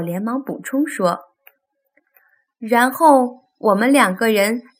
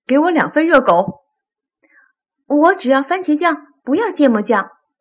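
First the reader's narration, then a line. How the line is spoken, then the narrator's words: Father calling out. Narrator (Chinese): 爸爸就叫道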